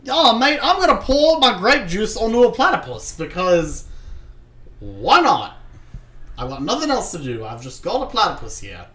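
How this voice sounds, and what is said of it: Bad put-on Australian accent. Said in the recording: “That was a really shitty ... Australian ... accent ... I'm just trying to do a bad Australian accent.”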